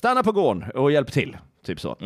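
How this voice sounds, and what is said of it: Put-on Scanian Swedish accent. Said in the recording (Swedish): “låtsas att jag säger det på skånska.”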